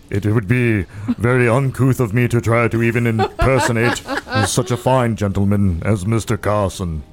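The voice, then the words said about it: Regal butler voice, flat and deliberate. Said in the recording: “It's so regal ... Sounding a little bit like an Elcor from Mass Effect”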